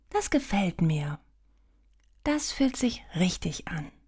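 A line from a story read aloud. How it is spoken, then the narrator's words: Soft. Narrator (German): sagt leise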